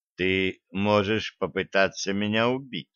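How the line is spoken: Quiet, changed tone. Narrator (Russian): Тихо и уже совершенно другим тоном произнес я

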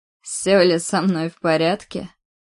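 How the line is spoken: Wry snort. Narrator (Russian): Хмыкнул опять кривя рот

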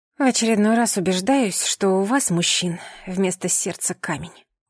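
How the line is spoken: Muttered. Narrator (Russian): пробормотала

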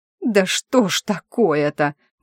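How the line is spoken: Irritated exclamation. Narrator (Russian): воскликнула я, раздраженно

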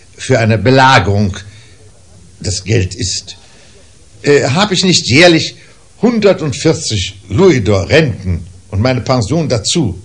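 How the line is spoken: Uncle calling out. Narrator (German): rief mein Onkel Toby

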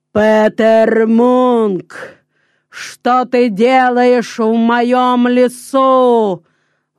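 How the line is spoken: Booming giant's voice. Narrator (Russian): вдруг сказал великан громовым голосом

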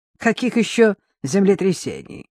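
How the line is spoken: Mocking retort. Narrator (Russian): насмешливо парировал Келна

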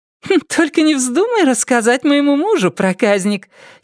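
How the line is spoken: Giggling. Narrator (Russian): хихикнула Тина

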